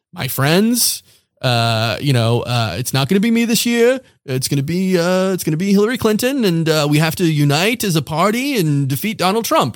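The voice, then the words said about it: Impression of Bernie Sanders. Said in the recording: “Pretty good impression.”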